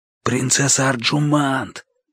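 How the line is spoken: Whispered call. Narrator (Russian): позвал я шепотом

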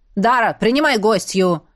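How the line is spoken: Loud bark. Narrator (Russian): гаркнул ей Зак

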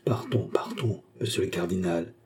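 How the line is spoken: Whispered. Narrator (French): dit tout bas madame de la Motte

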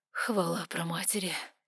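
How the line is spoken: Barely audible breath. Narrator (Russian): выдохнул он еле слышно

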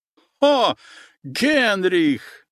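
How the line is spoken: Loud laughter. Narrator (Russian): громко расхохотался немец

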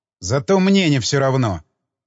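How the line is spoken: Angry interruption. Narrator (Russian): Оборвал я ее сердито

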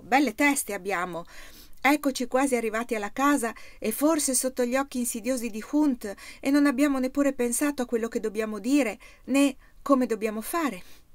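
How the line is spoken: Exclaiming. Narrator (Italian): fu Oddo a rompere il lungo silenzio, esclamando

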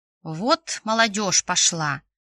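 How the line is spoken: Grandmother's disapproving grumble. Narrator (Russian): ворчала каждый раз бабушка Зарина, с неодобрением

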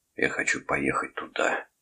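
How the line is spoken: Whisper. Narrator (Russian): шепотом сказал Торн

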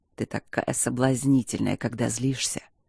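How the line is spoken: Deep guttural growl. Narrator (Russian): Утробно прорычал он

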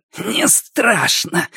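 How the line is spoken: Hoarse giggle. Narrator (Russian): сипло хихикнул он

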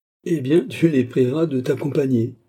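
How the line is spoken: Laughing reply. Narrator (French): répliqua en riant

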